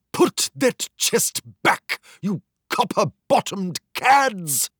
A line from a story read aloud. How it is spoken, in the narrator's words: cried the ship's commander